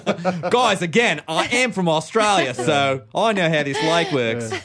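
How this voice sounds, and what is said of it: Weak put-on Australian accent. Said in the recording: “You could do an Australian accent... But not a good one... It's a hard accent.”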